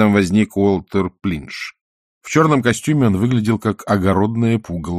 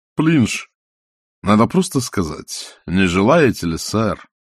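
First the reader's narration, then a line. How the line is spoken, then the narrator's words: Sighing. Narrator (Russian): вздохнул музыкальный директор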